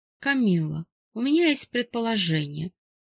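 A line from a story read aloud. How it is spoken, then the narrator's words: Sighing. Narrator (Russian): вздохнул Кутузов и подытожил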